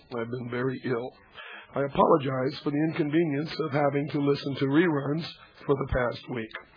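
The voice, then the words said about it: Hoarse, nearly lost voice. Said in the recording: “as you can hear, my voice has gone, and for several days, I didn't have any voice at all.”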